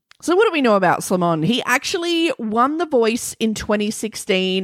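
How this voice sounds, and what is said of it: Australian accent. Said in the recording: “with my Australian accent”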